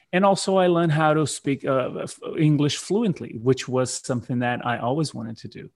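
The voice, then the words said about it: Non-native English accent. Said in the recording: “That's not my first language. Obviously, you may have noticed that because of my accent.”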